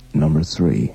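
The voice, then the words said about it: Deep, macho American announcer voice. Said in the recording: “sort of macho and still deep and American ... your impersonation ... that's kind of warm.”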